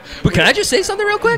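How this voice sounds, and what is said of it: Voice rises high in pitch. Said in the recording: “why did your voice go up like that? ... Because I get excited sometimes.”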